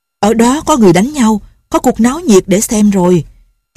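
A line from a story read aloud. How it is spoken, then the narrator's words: Shouting. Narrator (Vietnamese): Lệnh Hồ Xung la lên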